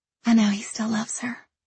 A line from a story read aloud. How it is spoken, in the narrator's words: she says, her voice barely a whisper